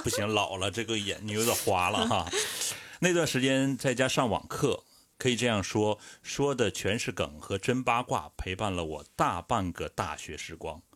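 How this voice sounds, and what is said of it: Northeastern Chinese accent. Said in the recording (Chinese): “去掉，去掉那个东北口音啊，哥。”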